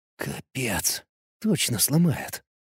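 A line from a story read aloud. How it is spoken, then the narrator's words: Whispered. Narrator (Russian): прошептал я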